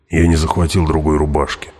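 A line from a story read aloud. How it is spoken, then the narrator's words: Grumbled. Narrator (Russian): буркнул он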